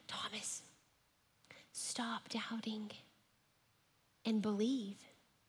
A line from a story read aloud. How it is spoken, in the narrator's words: he whispered